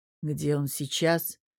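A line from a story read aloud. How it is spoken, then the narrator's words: Growled through clenched teeth. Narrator (Russian): прорычал сквозь зубы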